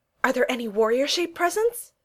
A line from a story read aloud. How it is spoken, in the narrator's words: Thor blurted out